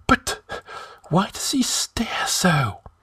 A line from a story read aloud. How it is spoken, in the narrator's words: whispered Publius